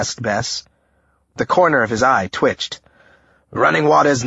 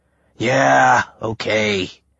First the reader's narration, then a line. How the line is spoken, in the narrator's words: he sighed